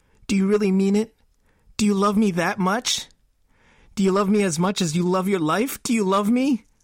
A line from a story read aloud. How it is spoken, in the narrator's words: Her voice sounded like she was actually sobbing